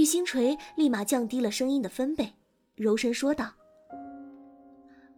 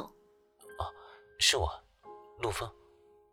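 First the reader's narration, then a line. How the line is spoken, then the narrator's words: Hesitant, over phone. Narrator (Chinese): 电话里的声音明显一顿，片刻后又开了口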